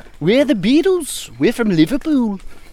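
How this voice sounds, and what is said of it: Goofy fake Liverpool accent, Scandinavian-sounding. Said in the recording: “That sounds like a goofy, like, Scandinavian accent.”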